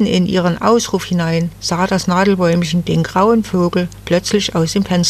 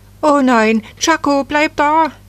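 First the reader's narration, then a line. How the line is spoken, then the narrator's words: Sudden scream. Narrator (German): Die Frau … als sie plötzlich schrie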